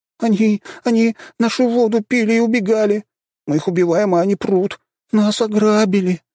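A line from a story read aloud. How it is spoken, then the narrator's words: Whining. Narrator (Russian): Хныкали они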